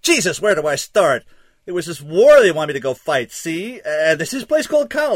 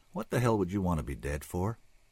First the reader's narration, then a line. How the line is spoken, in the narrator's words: There was an edge to his voice as he finished, but it disappeared as he added softly